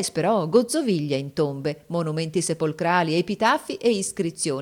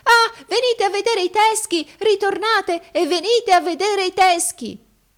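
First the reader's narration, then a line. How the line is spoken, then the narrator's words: Shouting. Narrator (Italian): lo udii gridare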